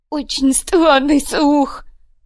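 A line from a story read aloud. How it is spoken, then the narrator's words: Tearful voice. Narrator (Russian): плачущим голосом прокомментировал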